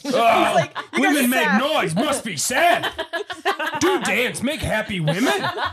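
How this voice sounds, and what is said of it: Caveman-style broken speech voice. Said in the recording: “What do you sound like just now? ... My inner dialogue. ... Caveman or something?”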